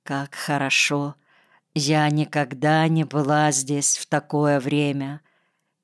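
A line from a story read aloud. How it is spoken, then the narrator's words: Quiet. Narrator (Russian): тихо сказала Наташа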